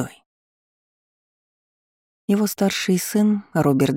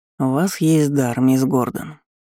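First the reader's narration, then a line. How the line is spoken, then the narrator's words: Indifferent tone. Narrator (Russian): безразличным тоном заявил маг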